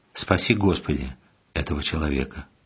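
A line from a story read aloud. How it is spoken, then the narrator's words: Calm prayerful. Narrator (Russian): он спокойно с молитвой сказал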